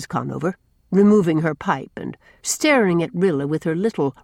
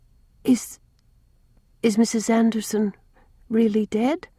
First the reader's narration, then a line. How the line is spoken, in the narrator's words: asked Rilla timidly